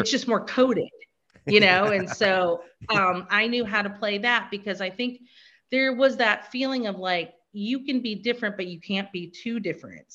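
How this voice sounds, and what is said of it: Exaggerated Midwestern American accent. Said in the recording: “my accent is so exaggerated... speak out loud and proud and like with this exaggerated accent... the Midwesternness”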